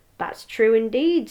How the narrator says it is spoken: said the laundress

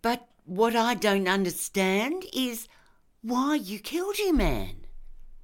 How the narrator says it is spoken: she said in a clear voice

